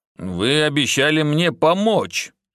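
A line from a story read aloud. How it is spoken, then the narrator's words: Gloomy. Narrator (Russian): мрачно ответил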